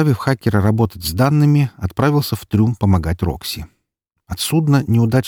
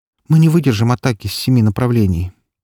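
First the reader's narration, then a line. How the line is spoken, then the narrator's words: Sighing. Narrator (Russian): вздохнула Валькирия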